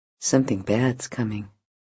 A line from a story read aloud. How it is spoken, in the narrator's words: murmurs